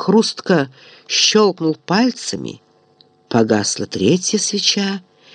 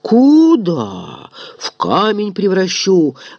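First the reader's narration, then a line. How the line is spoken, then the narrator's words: Growl. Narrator (Russian): рыкнул Момус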